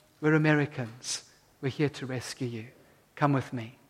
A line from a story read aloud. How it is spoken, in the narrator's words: he said to them quietly